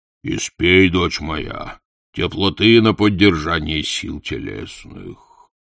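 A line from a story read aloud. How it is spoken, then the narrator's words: Deep bass voice. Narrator (Russian): громоздкий краснолицый с рыжей бородой диакон пробасил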